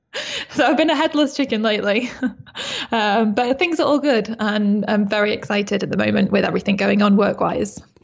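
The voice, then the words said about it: A distinct foreign accent. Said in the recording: “you still had that same amazing accent back then that you have now”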